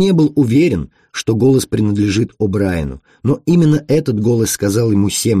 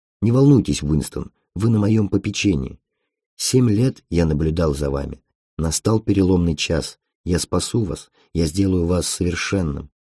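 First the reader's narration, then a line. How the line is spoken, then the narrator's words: Whisper in the ear. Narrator (Russian): голос прошептал ему на ухо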